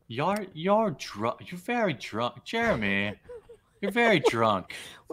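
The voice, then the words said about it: Imitates another person's voice, odd accent. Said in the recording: “What is this accent? ... I can't do it.”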